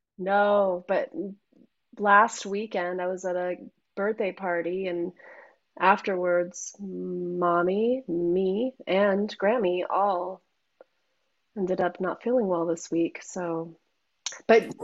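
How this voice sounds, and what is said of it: Slightly congested, sick-sounding voice. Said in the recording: “Sorry if I'm tone deaf today, everybody. I have a bit of a cold. ... You have a little bit of a cold.”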